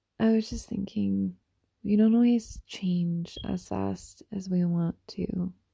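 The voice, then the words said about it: Stuffy-nosed, slightly scratchy voice. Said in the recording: “My nose is a bit stuffy ... my nose is a tad stuffy, so if I sound weird ... my voice is a tad scratchy”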